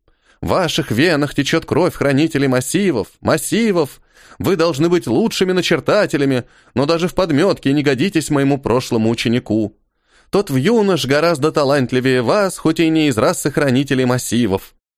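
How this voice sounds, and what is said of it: Grumbling parody of old teacher. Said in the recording (Russian): “скорчила недовольное лицо, пародируя Хильдефона, и проворчала”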